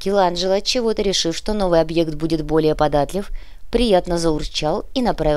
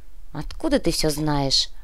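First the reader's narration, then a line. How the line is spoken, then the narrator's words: Sighing. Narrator (Russian): вздохнула рыжая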